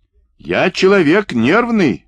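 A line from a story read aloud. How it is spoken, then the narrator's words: Yelling. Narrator (Russian): орал Каковашин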